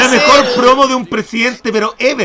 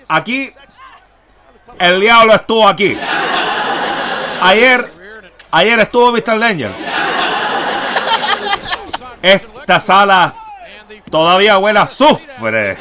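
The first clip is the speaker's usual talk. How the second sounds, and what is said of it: Imitates another person's voice. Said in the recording (Spanish): “mi imitación de em, Hugo Chávez ... me encanta su imitación de Hugo Chávez”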